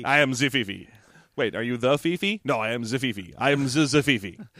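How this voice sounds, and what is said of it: Put-on French accent. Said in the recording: “I also have a French accent.”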